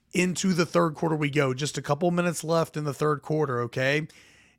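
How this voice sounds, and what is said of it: Voice in bad shape. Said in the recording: “My voice is so bad.”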